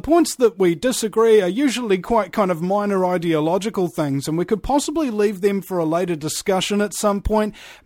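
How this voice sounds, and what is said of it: Speaks with a noticeable accent. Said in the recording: “especially with the accent.”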